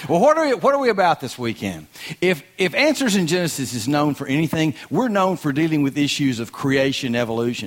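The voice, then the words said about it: Strong rural Southern-sounding accent. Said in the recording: “with this accent. They thought Gomer Pyle had come to town.”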